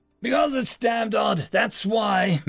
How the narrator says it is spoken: Major Winthrop shouted

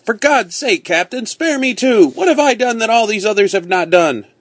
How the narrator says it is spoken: Upon hearing this, Will Atkins cried out

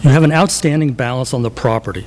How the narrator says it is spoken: she says

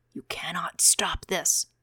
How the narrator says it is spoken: Ravier said, whispering in his ear

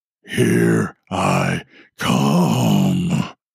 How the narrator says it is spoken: came a deep, growling, demonic-sounding voice

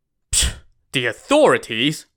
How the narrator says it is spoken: Ran Xiao Wu scoffed again

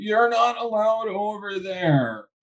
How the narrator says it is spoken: the other one shouts back after you

